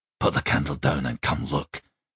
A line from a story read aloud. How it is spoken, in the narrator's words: he said quietly